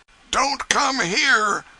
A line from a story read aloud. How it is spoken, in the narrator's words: he sang out frantically